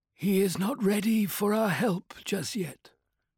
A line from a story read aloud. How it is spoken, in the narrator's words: she said softly